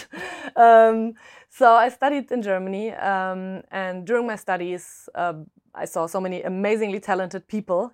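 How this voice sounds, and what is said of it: German accent. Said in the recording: “originally I'm German, if my accent hasn't given it away yet”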